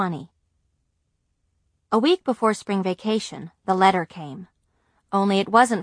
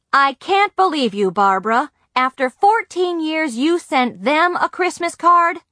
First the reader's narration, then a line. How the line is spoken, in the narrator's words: My father hollered